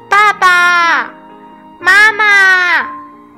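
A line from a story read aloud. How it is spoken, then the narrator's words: Repeated calling. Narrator (Chinese): 它不断的叫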